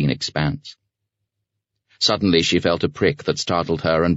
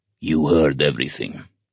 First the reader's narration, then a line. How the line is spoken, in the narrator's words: he said in a husky voice